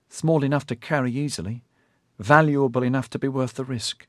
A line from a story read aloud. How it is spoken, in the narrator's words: Dinlay replied